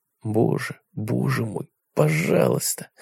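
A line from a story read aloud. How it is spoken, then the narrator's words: Breathless exhale. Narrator (Russian): выдохнул он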